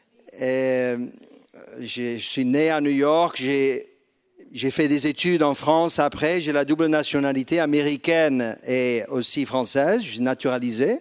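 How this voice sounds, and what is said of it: Slight New York accent. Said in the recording (French): “un petit accent, vous avez entendu? ... un petit accent new-yorkais”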